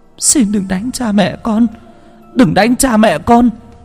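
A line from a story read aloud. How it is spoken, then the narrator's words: Children crying, pleading. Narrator (Vietnamese): Hai đứa bé chịu không nổi, khóc lóc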